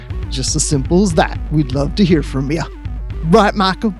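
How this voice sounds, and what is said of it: Creepy put-on voice. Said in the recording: “That's a really creepy voice.”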